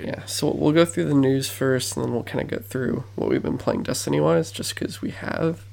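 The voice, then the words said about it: Worn-out, hoarse voice. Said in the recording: “my voice is kind of shot at this point”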